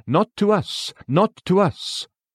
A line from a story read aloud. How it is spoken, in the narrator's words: Faith cries